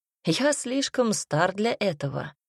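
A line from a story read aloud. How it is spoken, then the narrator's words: Laughing. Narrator (Russian): рассмеялся Арчи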